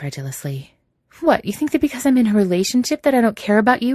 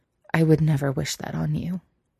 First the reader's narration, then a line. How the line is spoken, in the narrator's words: Elliot says quietly